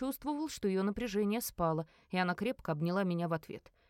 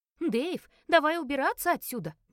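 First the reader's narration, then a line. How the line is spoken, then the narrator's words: Shout. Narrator (Russian): крикнул Руфин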